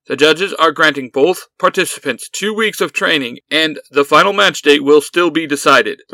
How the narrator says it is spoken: the referee called out

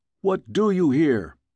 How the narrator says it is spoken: shouted

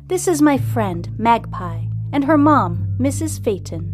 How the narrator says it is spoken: says calmly

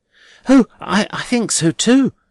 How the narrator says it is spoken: cried Rosa very readily

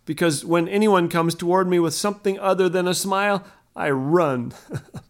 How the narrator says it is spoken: Ken laughed

